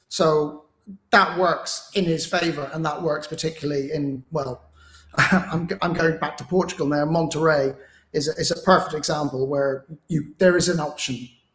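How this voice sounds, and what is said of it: Hoarse, fading voice. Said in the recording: “I'm losing my voice a bit.”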